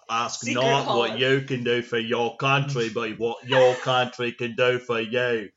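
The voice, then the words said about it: Put-on Yorkshire accent. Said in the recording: “traveling UK accent ... his Yorkshire accent”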